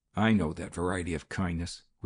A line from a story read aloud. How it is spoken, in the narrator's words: growled the young man